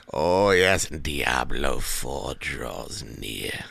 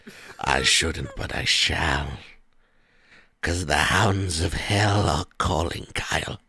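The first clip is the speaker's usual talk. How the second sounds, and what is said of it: Creepy character voice. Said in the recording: “Let me talk in the creepy voice for a minute.”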